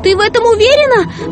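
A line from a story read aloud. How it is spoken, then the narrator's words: Shouting. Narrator (Russian): прокричала Ренни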